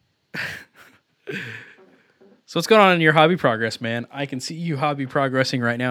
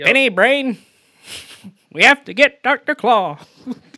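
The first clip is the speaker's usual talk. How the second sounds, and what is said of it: Inspector Gadget cartoon character impression. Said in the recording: “I can do a pretty good Inspector Gadget impression.”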